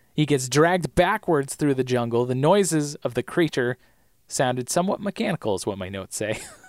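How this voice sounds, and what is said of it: Strained, failing voice. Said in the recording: “I'm losing my voice. I'm losing my voice already.”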